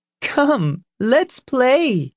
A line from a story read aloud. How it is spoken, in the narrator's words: called the girls and laughed